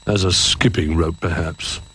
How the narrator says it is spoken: grumbled Duck

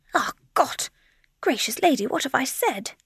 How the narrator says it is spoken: exclaimed the Herr Professor

